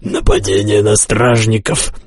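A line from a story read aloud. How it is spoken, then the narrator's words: Hoarse leader. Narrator (Russian): прохрипел главный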